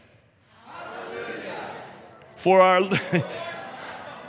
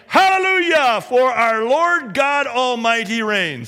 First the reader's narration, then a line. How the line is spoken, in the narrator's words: what sounded like a great multitude, like the roar of rushing waters and like loud peals of thunder, shouting